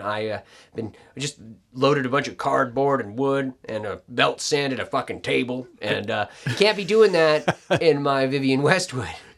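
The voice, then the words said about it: Macho bro voice. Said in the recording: “just did the bro voice when you're talking about tools and stuff”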